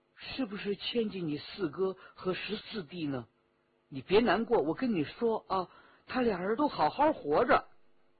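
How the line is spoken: Gentle, soft. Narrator (Chinese): 李元直心中一软，柔声说

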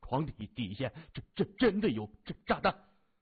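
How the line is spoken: Stammering. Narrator (Chinese): 结结巴巴地说

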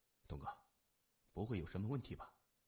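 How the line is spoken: Low voice. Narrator (Chinese): 他只是低声说

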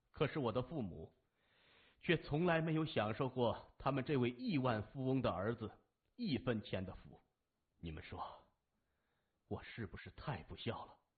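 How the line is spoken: Laughing. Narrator (Chinese): 谢文东甩甩头笑着说

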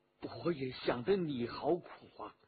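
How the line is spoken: Low voice. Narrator (Chinese): 于于同 低声地说

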